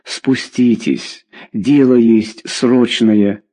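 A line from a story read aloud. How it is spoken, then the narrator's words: Plain. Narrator (Russian): сказал водитель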